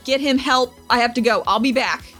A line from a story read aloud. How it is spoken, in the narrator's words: As Athena's beginning her chase, she yells to Zadal